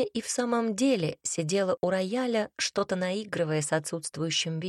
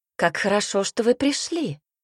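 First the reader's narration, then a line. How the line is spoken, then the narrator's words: Exclaimed. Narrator (Russian): воскликнула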